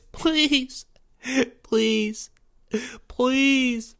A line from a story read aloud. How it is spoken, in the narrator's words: Porge begged and blubbered uncontrollably